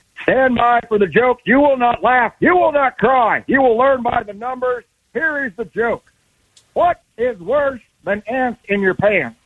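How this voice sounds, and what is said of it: Barking drill sergeant character voice. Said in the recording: “do your impression ... Sergeant?”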